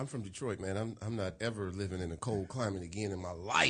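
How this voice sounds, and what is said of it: Usual voice. Nothing is said of it.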